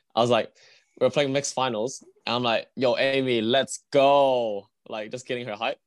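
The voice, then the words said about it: Hoarse, worn-out voice. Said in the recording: “my voice is dying, man. I legit shouted way too much.”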